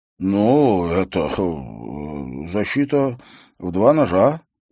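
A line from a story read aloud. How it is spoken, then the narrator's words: Mumbling. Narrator (Russian): промямлил он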